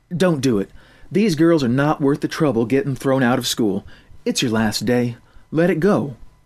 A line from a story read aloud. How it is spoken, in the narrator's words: The cafeteria worker said in a calming voice